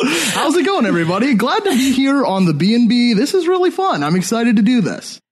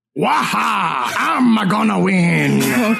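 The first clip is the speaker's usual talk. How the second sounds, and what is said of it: Cartoon villain character voice. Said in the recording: “And also Wario.”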